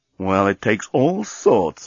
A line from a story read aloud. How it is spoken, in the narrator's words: murmured Dan